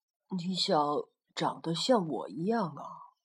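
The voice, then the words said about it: Soft, quiet spoken line. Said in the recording (Chinese): “霸王龙小声地说”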